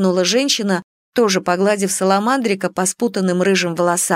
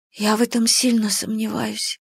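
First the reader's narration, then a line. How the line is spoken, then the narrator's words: Whisper. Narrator (Russian): прошептала я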